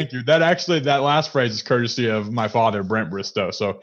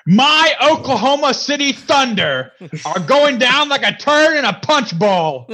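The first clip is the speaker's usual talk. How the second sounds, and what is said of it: Impression of a sports commentator. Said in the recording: “my Skip Bayless impersonation ... That is surprisingly really good, actually.”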